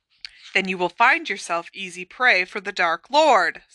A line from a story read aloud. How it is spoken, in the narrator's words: said Snape savagely